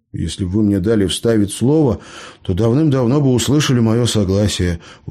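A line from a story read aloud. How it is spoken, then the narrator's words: Weary sigh. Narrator (Russian): устало выдохнул Леонид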